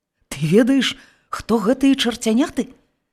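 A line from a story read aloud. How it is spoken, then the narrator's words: Stammering question. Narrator (Belarusian): заікаючыся спытаў рудабароды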